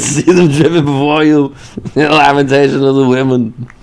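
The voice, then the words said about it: Imitates another person's voice. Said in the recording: “My Arnold Schwarzenegger impression”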